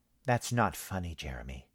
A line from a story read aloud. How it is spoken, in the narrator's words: said coldly